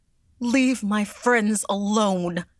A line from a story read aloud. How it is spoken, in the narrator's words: she cried